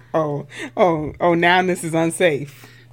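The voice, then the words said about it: Put-on Black mama voice. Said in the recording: “why you sound like that? ... you sound like a black mama? ... Why you sound like that to me?”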